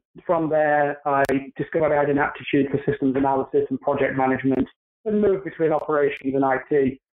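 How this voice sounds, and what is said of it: British accent. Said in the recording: “From my accent, you can tell that I'm not from around the New York or New Jersey area. I'm originally from the UK”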